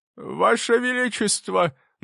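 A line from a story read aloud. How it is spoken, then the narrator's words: Trembling voice. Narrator (Russian): начал он дрожащим голосом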